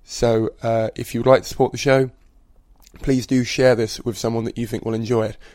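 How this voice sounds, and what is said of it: Strained, failing voice. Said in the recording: “as you can probably hear, my voice is going”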